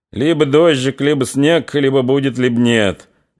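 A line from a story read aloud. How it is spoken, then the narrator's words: Mocking. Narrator (Russian): насмешливо сказал Чумаков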